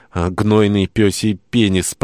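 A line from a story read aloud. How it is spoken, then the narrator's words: Growling, to no one. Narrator (Russian): прорычала Мэгги, никому в особенности не обращаясь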